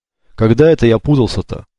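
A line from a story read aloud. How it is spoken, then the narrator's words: Grumbled. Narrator (Russian): проворчал Кли-кли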